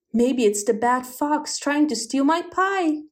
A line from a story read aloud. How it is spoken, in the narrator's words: exclaimed the hedgehog